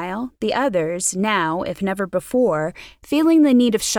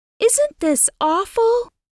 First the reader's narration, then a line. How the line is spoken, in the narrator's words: gasped Ruth